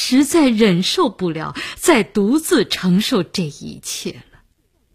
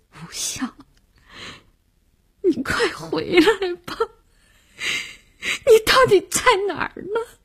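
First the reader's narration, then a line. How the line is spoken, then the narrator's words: Crying. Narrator (Chinese): 他哭着说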